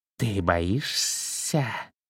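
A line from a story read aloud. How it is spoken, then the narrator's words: Contemptuous hiss. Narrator (Russian): презрительно прошипел черный змей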